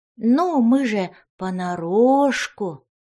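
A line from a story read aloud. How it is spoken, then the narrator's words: Drawled. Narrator (Russian): протянула фея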